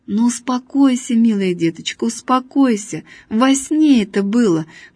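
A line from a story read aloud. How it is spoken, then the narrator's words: Plain. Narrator (Russian): говорит Василий Игнатьич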